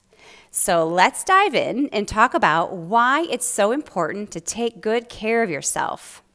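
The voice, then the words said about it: Voice sounding a little different. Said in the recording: “I have a cold that I'm recovering from, so if my voice sounds a little bit different”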